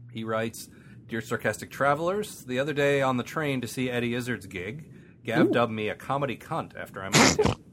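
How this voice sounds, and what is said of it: American accent. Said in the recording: “my you know, American accent really does not portray the glory of hearing a British person say cunt”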